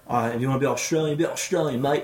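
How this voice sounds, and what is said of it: Poor put-on Australian accent. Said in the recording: “Awful accent.”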